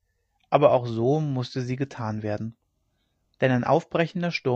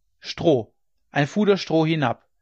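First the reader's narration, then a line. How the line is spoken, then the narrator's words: Calling up loudly. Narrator (German): rief er denen droben zu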